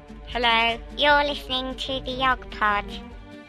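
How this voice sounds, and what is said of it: Slightly higher-pitched silly voice. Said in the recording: “You're not that much higher than normal. It just sounds like you doing a silly voice.”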